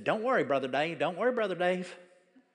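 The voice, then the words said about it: Exaggerated Southern US accent. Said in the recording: “And that southern accent, ... if you ever saw swamp people, that's what I'm talking about.”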